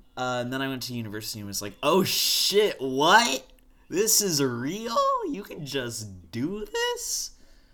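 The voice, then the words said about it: Voice cracking repeatedly. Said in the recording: “My voice cracked 3 times in a row.”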